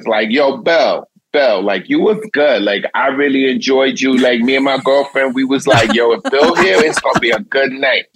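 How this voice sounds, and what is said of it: Put-on New York accent. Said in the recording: “That's a great accent. ... That's such a New York accent.”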